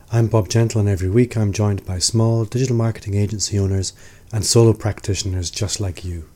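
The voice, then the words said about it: Rough, hoarse voice. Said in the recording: “This week I've had a bit of flu... if my voice sounds rough, that's why.”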